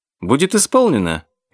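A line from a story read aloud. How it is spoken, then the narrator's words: Cheerful reply. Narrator (Russian): весело ответил Кейну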